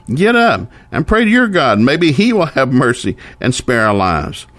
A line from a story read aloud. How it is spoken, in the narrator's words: He shouted